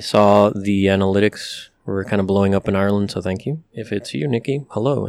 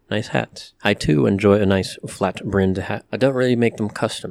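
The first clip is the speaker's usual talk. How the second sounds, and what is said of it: Put-on British accent. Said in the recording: “I don't know why I'm slipping into a British accent”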